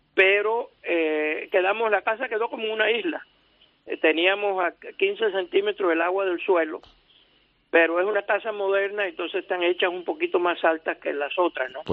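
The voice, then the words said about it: Cuban Spanish accent. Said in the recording (Spanish): “¿De dónde viene tu acento? ¿Tienes origen cubano o mexicano? ... Yo soy cubano de nacimiento”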